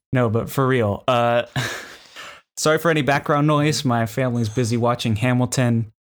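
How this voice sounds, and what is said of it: Slightly hoarse voice. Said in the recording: “My voice is a little hoarse. I talked too much last episode”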